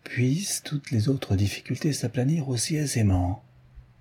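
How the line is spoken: Murmur. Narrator (French): murmura Sherlock Holmes

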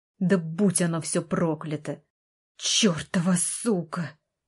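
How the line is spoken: Hiss. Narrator (Russian): прошипел

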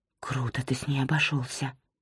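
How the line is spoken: Whispered. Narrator (Russian): прошептала Нора

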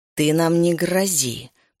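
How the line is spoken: Growling. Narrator (Russian): прорычала

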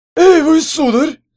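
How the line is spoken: Sudden bark. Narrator (Russian): вдруг рявкнул Нюрат

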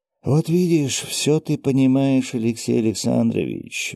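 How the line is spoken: Sigh. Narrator (Russian): вздохнул я

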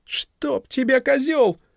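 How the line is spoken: Shouting after someone. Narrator (Russian): кричала ему вслед Вивьен

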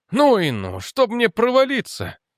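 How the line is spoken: Breathless exhale. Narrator (Russian): выдохнул он

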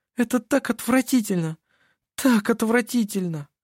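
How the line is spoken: Whimpering again. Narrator (Russian): Снова захныкала она

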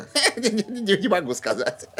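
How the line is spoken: Answering through laughter. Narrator (Russian): сквозь смех ответил Кадберт

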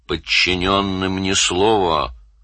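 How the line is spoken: Hissed. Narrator (Russian): Данил прошипел вслед

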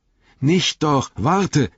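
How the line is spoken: Firmer voice calling up. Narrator (German): rief Frodo hinauf, nun mit festerer Stimme

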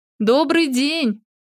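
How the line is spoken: Uneasy repeated shout. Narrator (Russian): Крикнула она вновь, чувствуя себя неуютно

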